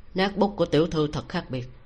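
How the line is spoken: Cold, flat, slow. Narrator (Vietnamese): giọng nói lạnh lùng nhàn nhạt quen thuộc truyền đến, chậm rãi nói

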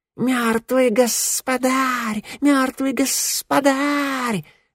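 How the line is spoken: Snakes hissing. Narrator (Russian): шипели змеи

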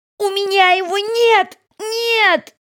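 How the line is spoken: Screaming. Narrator (Russian): закричала она

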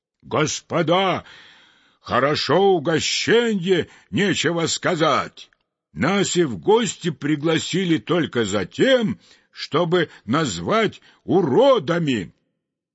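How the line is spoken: Angry shouting. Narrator (Russian): даже стучал кулаком по столу и кричал

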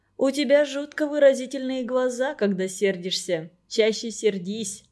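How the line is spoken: Plain. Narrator (Russian): сказал Женька

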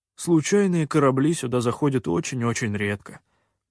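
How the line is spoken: Sigh. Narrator (Russian): наконец вздохнул По

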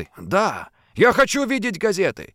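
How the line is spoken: Exclamation. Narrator (Russian): воскликнул пират

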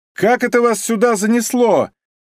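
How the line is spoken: Shout. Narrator (Russian): закричал Востриков

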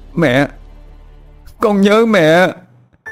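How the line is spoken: Sobbing cry. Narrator (Vietnamese): Tuấn nức nở, gào lên một tiếng

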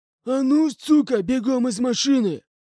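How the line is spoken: Hoarse voice from outside. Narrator (Russian): Раздался хриплый голос снаружи

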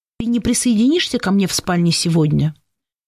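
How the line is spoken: Very calm, restrained. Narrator (Russian): Я сказала очень спокойно и сдержанно

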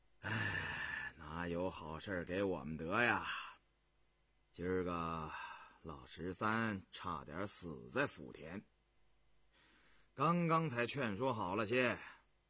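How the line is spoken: Serious sighing. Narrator (Chinese): 胤禛敛了笑容……抚膝叹道

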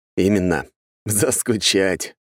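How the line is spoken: Laughing. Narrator (Russian): рассмеялся я

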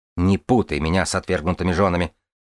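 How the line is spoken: Snapping retort. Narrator (Russian): огрызнулась я

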